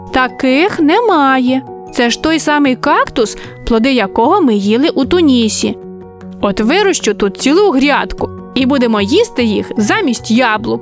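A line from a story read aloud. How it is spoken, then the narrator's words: Laughing. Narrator (Ukrainian): розсміялася Марійка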